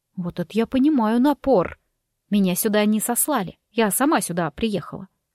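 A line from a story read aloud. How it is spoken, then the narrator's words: Calm. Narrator (Russian): спокойно проговорила я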